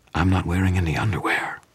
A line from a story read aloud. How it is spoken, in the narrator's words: Susan whispered into my ear